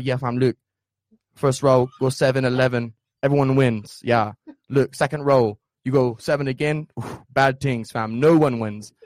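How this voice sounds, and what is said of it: Put-on English accent. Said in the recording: “I'm going in and out of that English accent”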